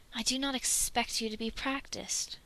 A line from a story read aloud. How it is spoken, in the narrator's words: Dwalin says calmly